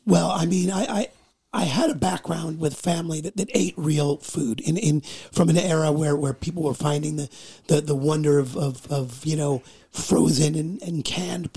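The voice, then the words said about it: Hoarse, weak voice. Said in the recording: “I woke up ironically today with laryngitis ... my voice just didn't show up today”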